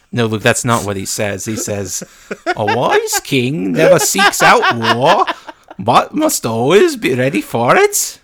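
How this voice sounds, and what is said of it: Imitates another person's voice. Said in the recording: “That's a really good Anthony Hopkins as Odin impression. ... my very accurate Norwegian accent”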